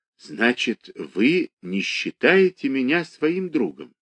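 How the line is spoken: Dejected question. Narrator (Russian): спрашивает она уныло

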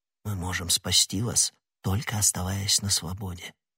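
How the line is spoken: Quick whisper. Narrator (Russian): быстро шепнул ему Д'Артаньян

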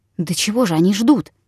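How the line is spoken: Whispered question. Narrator (Russian): спросил я тоже шепотом

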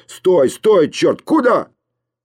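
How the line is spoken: Rough voice shouting. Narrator (Russian): грубый голос закричал

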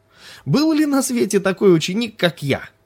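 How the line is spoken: Cheerful shout. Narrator (Russian): весело крикнул он Лами

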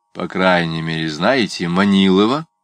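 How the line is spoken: Plain. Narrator (Russian): сказал Чичиков

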